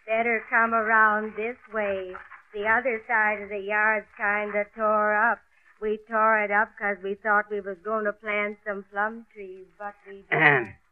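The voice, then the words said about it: Hoarse rough character voice. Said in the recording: “why does she talk like that ... She probably shouted herself hoarse”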